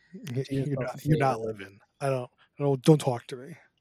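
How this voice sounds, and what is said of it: Imitates another person's voice. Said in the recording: “I was imitating you.”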